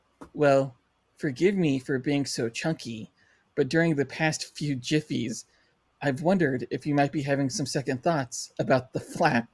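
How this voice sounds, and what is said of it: Impression of HAL. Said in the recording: “try to do a very good Hal impression”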